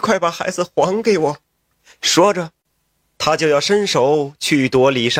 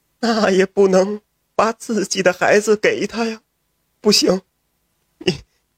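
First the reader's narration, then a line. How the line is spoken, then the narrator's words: Wife crying. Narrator (Chinese): 妻子哭道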